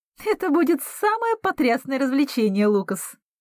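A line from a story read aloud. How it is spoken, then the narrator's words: Giggling. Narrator (Russian): хихикает Аспин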